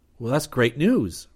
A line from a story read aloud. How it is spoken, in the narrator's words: Rip exclaimed